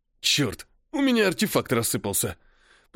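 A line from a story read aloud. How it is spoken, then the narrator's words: Low-voiced hiss. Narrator (Russian): прошипел тот, у кого был самый низкий голос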